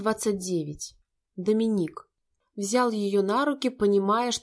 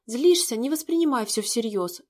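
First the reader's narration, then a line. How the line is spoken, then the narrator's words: Babbling. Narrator (Russian): лепетала эта премудрая гадина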